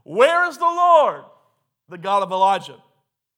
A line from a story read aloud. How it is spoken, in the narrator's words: someone shout